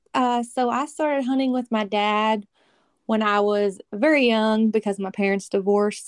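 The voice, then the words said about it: Kentucky Southern American accent. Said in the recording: “I can tell from your accent, you're not a Northern girl. ... I'm from Kentucky.”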